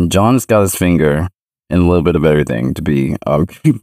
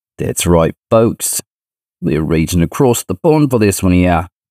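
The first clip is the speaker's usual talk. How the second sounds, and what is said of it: Poor put-on British accent. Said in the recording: “the horrible accent”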